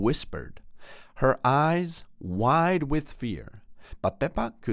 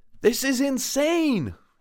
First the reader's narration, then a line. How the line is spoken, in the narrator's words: Angela exclaimed a bit too loudly, adrenaline surging through her veins